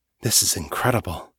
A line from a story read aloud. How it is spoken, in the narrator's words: whispers